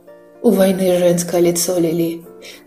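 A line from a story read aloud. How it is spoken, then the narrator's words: Sad mutter. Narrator (Russian): грустно пробормотала Сильвия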